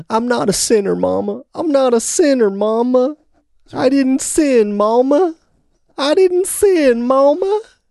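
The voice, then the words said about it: Imitated Southern country accent. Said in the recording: “that country accent so well ... I do a pretty good sissy Spacek.”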